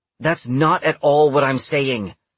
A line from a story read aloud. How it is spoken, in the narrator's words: snapped Indra